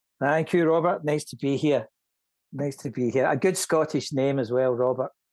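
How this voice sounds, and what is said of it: Strong Scottish accent. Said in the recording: “I'm loving listening to your brogue ... it's still pretty strong”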